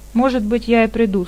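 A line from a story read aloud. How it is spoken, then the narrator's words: Plain. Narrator (Russian): сказал он наконец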